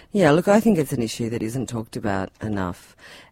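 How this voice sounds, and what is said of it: Australian (Tasmanian) accent. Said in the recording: “you can probably tell from my accent that I'm not from a developing country... Oh, Tasmania.”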